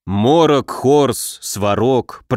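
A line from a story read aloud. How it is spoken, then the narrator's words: Grumble. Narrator (Russian): проворчал Муром, неохотно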